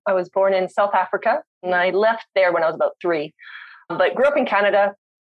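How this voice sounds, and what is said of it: Canadian accent. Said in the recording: “my accent is Canadian”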